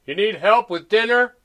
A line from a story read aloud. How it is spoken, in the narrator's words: Pete asked loudly